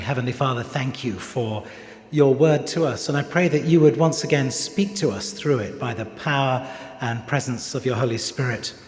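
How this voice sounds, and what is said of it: English accent. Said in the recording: “hearing my accent ... how do you celebrate July 4th in England?”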